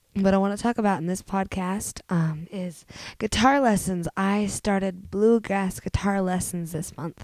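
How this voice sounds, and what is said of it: Raspy, hoarse sick voice. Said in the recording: “I'm a little under the weather today ... I sound like a smoker”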